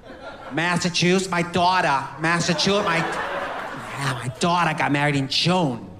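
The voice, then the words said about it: Put-on New England accent. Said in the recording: “Let's do the New England accent”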